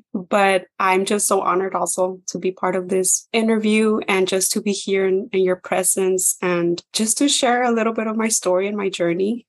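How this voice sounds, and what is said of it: Raspy voice. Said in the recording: “Excuse my raspy voice”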